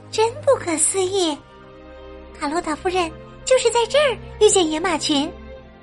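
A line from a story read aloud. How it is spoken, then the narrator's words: Quiet, respectful. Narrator (Chinese): 艾米恭敬的小声说道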